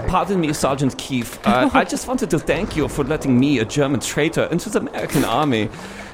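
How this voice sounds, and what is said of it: Put-on German accent. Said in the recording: “you do the best German impression”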